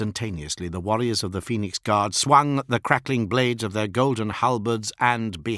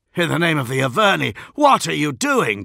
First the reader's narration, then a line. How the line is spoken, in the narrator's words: cried Santar